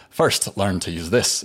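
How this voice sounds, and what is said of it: Poor put-on Scottish accent. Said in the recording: “I'm going to do my terrible Scottish accent,”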